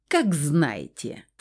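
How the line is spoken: Haughty snort. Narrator (Russian): фыркнул господин Ондус

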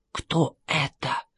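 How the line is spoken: Whispering. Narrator (Russian): прошептал Джордж

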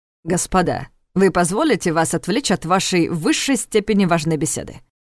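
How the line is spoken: Caustic inquiry. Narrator (Russian): Едким тоном поинтересовался Страх

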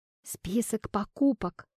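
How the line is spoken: Whisper. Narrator (Russian): прошептал он

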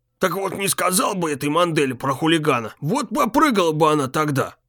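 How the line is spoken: Old man muttering under breath. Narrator (Russian): Пробурчал старик себе под нос

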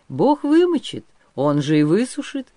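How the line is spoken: Cheerful reply. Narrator (Russian): весело отвечал Григорий

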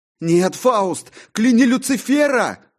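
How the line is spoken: Shouting. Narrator (Russian): кричал я

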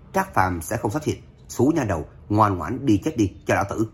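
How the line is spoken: Loud mocking laughter. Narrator (Vietnamese): Lâm Thành Phong càng cười to lên chế nhạo

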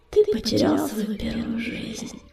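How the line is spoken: Soft. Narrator (Russian): мягко сказала синяя звезда

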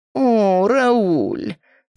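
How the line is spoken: Cat-like affectionate purr. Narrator (Russian): покошачьи ластясь к нему промурлыкала Паула

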